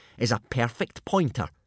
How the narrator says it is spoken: sneered Snotlout, lunging athletically

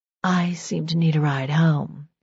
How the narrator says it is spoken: she whispered

